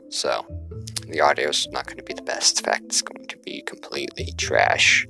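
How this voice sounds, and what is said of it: Unusual accent with speech impediment. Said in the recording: “I speak weird, very poorly. I have a speech impediment and a weird accent ... I talk funny”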